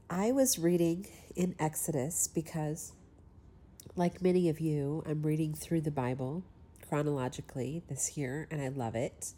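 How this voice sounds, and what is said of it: Congested voice from a cold. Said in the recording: “forgive my voice if I have a little bit of a cold”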